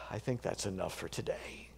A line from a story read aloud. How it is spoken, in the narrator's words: sighs and says